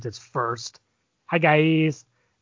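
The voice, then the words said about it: YouTuber-style greeting impression. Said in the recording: “your YouTube impression”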